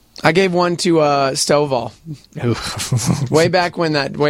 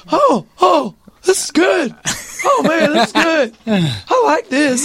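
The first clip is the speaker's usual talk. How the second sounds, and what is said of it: Raspy imitation of another person's voice. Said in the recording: “that wasn't a bad Dave impression ... your voice is very raspy and almost gone ... You sound just like him.”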